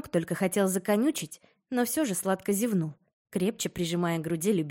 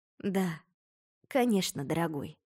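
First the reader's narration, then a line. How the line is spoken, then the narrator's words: Soft, smiling. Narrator (Russian): мягко улыбнулась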